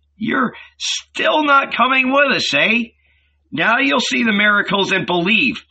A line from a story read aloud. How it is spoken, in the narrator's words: the disciples shouted at him